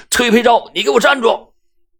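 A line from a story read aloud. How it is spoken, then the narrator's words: Shouting while chasing. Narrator (Chinese): 安然…嘴里喊着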